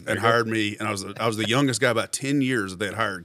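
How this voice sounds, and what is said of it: Soothing accent. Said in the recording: “they liked the way my accent sounded because it was soothing”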